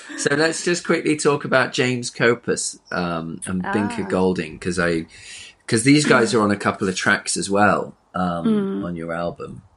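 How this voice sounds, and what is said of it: Slight twang, fairly London accent. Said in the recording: “I've ended up with this weird jazz podcast voice... There's a slight twang, but then quite London as well”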